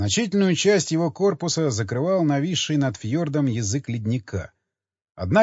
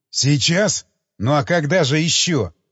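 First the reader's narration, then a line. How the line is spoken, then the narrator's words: Barked. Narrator (Russian): рявкнул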